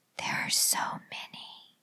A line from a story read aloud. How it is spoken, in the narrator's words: she whispered to Marge